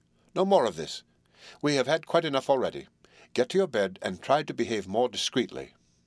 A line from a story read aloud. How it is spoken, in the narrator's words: I said sternly